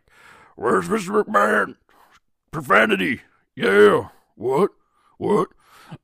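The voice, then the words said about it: Weak Stone Cold Steve Austin impression. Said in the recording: “That was a terrible Austin impression, but I wasn't trying that hard either”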